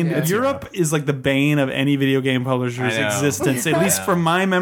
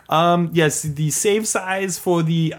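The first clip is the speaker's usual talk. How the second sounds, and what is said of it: Exaggerated generic European accent. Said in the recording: “This is my European accent, trying to encompass every European accent all into one ... I like how you, like, started out French, but ended in Arnold Schwarzenegger ... I tried to grab a little from everywhere”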